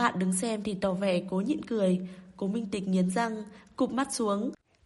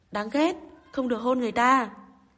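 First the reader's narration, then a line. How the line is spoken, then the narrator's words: Eerie cry. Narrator (Vietnamese): Tên bị chặn kêu lên một cách quỷ dị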